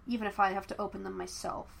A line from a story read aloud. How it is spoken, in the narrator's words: she muttered silently